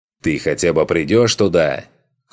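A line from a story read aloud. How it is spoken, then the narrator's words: Shouted after someone. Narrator (Russian): крикнул ему вдогонку Соха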